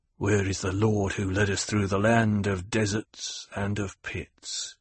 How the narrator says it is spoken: murmured

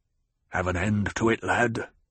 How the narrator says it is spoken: Stilgar muttered

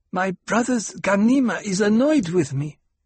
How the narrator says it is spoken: Aaliyah said in her half-lisp

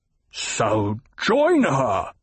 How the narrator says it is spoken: the Baron spat

